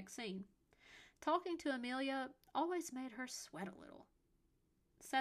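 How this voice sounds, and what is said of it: Usual voice. Nothing is said of it.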